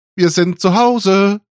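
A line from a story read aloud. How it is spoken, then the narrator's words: Cheerful call. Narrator (German): rief Papi fröhlich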